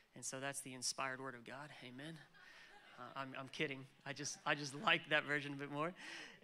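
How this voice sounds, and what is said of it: American accent. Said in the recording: “as you can tell from my accent, 15 years ago, I moved here from America.”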